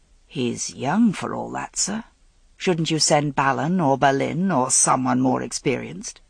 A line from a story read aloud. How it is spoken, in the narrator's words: Lancelot said in a low voice